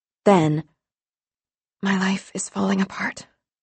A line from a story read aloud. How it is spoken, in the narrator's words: she murmured